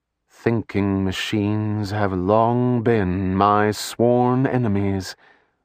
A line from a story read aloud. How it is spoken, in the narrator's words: the Oracle said in her ethereal voice